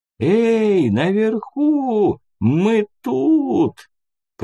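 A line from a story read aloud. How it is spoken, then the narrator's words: Hoarse, strained voice. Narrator (Russian): севший хриплый голос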